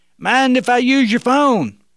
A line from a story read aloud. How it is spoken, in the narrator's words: the young man yelled out again